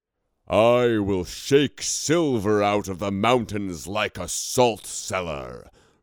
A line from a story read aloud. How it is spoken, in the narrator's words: Romular roared